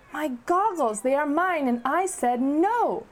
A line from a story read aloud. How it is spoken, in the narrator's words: Shala shouted